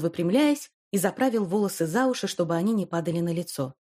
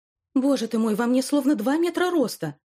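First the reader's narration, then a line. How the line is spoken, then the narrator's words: Exclaiming. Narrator (Russian): воскликнула она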